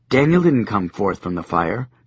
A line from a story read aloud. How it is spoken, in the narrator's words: Joshua said calmly